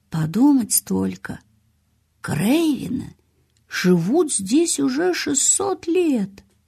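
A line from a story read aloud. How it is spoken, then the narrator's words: Quiet, tender father. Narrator (Russian): отец Колина с неожиданной для самого себя лаской тихо сказал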